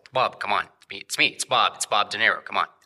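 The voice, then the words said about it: Imitates another person's voice, unconvincingly. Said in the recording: “You also don't really sound like Bob. Is it a really bad line?”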